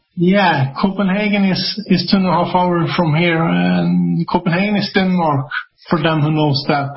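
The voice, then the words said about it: Foreign accent in English. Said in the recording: “you have an accent, and I love your accent”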